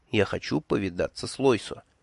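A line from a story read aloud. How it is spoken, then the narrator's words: Confiding whisper. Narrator (Russian): я доверительно шепнул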